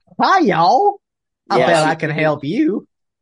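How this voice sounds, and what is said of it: Put-on Southern Mississippi accent. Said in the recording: “This lady's accent is the best”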